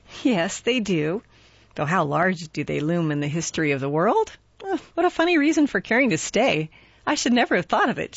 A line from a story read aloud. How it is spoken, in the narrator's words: she laughed